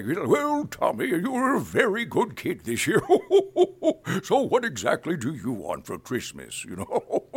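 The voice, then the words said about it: Santa Claus character voice. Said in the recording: “doing Santa Claus ... character voice”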